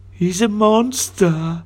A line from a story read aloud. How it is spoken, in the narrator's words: cried the monster